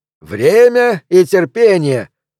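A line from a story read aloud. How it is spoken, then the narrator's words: Shouted out. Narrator (Russian): выкрикнул Клеменс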